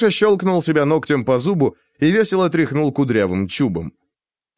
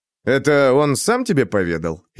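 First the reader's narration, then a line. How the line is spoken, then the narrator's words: Snide question. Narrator (Russian): ехидно спросил я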